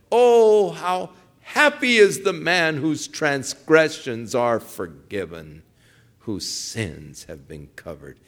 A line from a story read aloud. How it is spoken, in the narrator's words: David exclaimed